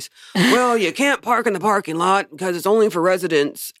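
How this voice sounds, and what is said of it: Imitates her father's voice. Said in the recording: “I'm using dad voice.”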